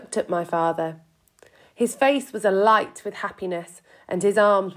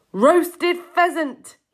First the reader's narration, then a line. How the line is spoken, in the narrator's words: he cried out